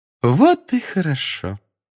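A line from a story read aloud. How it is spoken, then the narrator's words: Sugary sing-song. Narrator (Russian): Сладким голосом пропела профессор Амбридж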